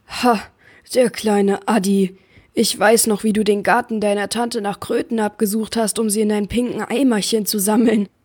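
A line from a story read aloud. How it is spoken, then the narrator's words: Giant thundering. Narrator (German): donnerte der Riese und grinste von einem Ohr zum anderen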